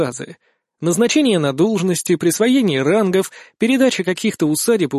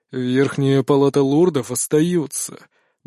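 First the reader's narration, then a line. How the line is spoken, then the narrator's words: Tired, curt. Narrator (Russian): бросил он устало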